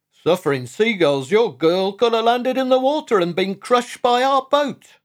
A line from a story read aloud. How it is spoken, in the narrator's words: shouted Skipper Salt to Lily's parents